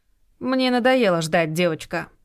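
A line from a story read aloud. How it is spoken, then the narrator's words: Dry curt tone. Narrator (Russian): сухо сказала Лидия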